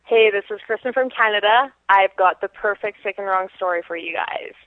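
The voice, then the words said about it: Canadian accent. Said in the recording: “That is such a fake Canadian accent.”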